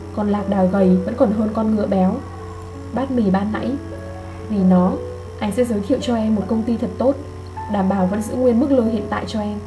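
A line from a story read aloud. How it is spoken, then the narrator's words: Soft amused speech. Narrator (Vietnamese): Anh khẽ cười nói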